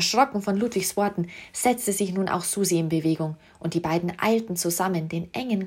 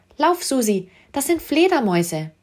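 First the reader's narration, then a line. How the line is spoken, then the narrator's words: Shouting. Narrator (German): rief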